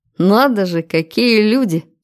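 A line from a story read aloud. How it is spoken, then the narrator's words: Short laugh. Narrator (Russian): хохотнул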